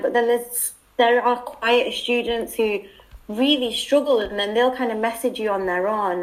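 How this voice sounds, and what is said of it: British accent. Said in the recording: “my accent helps because they kind of really remember that. Oh, that's the British girl”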